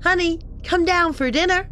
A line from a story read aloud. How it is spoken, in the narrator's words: my mum shouted